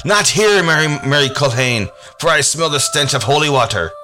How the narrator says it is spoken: the creature cried out

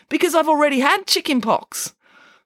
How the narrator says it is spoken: said Michael happily

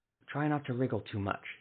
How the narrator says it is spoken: he whispered

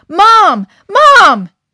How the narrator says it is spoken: Suddenly, Adam yelled

